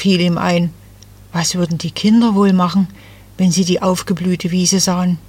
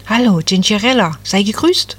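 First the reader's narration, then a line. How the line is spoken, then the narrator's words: Cheerful little tree. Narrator (German): sagte das Nadelbäumchen fröhlich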